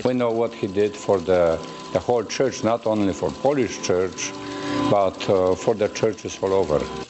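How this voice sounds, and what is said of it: Priest speaking accented English. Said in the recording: “Sound a little bit like Father Guido Sarducci to you? Just the tiniest little bit there ... any Catholic priest who has any kind of an accent”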